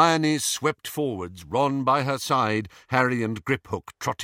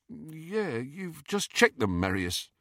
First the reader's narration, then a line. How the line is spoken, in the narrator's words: his companion, who said in a slightly dazed voice